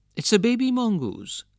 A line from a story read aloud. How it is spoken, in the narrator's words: said his wife